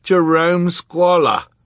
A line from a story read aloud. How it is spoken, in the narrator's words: Klaus cried